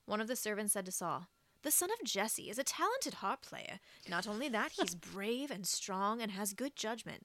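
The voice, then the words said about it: Reads aloud in a put-on accent. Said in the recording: “That accent choice was so good”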